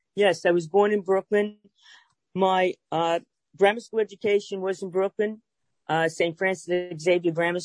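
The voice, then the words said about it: Brooklyn New York accent. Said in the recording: “if you can't tell by my accent, I'm from Brooklyn, New York”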